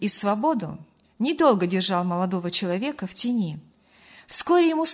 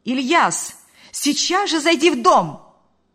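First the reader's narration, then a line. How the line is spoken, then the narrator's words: Shouting. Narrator (Russian): крикнула она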